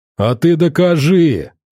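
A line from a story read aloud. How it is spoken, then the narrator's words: Shouting. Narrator (Russian): заорал Одноглазый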